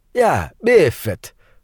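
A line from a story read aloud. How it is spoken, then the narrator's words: Laughing, guffaw. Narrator (Russian): фон Хельрунг хохотнул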